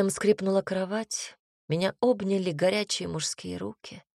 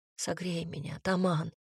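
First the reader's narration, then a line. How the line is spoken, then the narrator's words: Whispering. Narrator (Russian): прошептала я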